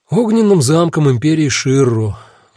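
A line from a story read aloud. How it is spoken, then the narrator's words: Sigh. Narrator (Russian): вздохнул я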